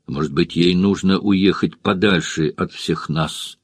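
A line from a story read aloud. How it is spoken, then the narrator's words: Quiet. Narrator (Russian): тихо сказала она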